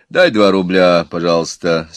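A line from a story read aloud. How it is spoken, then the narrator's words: Calm. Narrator (Russian): спокойно сказал Иван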